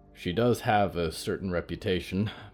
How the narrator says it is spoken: Marco sighed

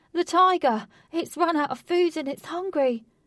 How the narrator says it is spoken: came rushing back and cried

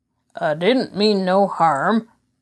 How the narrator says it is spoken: Gombet grunted

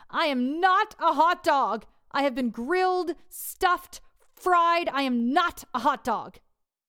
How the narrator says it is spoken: he'd shout

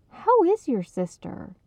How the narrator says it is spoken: Beth asked earnestly

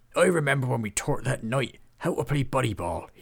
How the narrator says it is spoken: chuckled

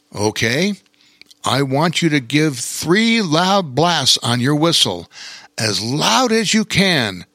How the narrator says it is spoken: said Bear King

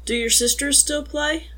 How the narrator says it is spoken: Mac chuckled softly

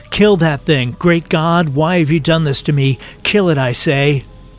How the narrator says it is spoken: The husband began to moan and cry hysterically, screaming

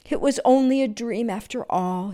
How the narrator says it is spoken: said sadly

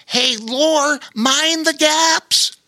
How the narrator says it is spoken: called out earnestly

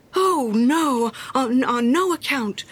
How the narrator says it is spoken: cried little Hans

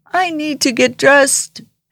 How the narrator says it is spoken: He cried

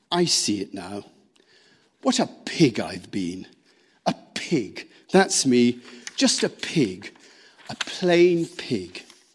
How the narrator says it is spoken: he muttered gloomily

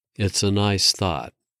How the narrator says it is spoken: she said, her voice softening

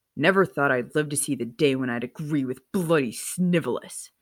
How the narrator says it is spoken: Sirius snarled

